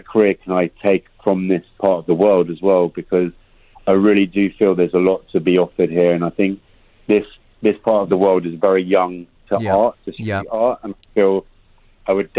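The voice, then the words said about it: West London English accent. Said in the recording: “your accent doesn't sound like you're from New York or LA ... I was born in London, West London boy”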